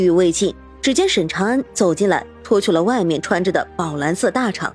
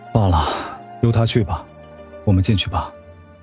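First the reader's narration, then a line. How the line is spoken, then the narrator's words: Resigned sigh. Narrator (Chinese): 终究是长叹一口气，说道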